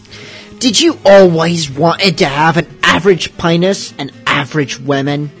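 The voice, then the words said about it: Poor put-on Cockney accent. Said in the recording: “my best Cockney accent ... my Cockney accent sucks. It's horrid.”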